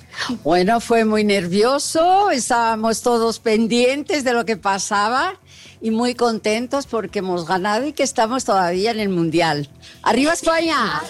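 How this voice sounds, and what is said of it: Spanish-accented Portuguese speech. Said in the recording (Portuguese): “como é bonito esse sotaque”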